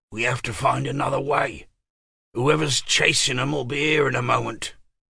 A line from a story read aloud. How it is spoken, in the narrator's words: James whispered